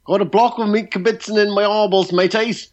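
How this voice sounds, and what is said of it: Poor put-on Australian accent, sounds English. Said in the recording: “rendition of our Australian accent because it sounds very English to me ... It's exactly the sort of accent you'd expect from somebody in Les Miserables or having stolen a loaf of bread. It was terrible”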